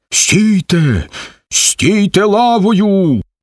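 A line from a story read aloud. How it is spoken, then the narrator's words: Shouted command. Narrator (Ukrainian): крикне Сомко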